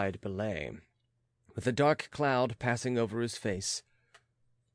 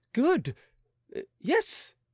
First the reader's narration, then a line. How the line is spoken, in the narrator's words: exclaimed the young man, who began to understand